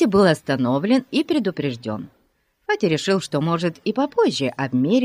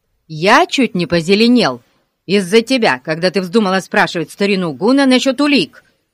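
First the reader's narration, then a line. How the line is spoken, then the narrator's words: Angry. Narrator (Russian): сердито сказал Пип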